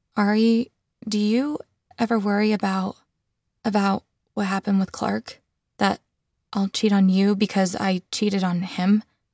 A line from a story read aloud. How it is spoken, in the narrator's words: My voice was barely a whisper as I said